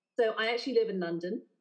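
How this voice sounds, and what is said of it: English accent, southern English. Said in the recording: “my Mary Poppins accent, ... I am from England ... this kind of Emma Thompson-esque Mary Poppins situation”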